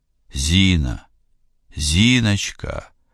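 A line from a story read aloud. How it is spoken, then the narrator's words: Desperate voice. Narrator (Russian): откликнулся замерший серый поток отчаянным голосом одного из них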